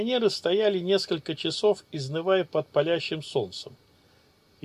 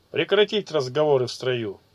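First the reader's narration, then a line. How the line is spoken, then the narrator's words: Barked command. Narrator (Russian): рыкнул Висисекагу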